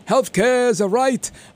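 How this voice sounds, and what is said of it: Bernie Sanders impression. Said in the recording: “my Bernie Sanders impression.”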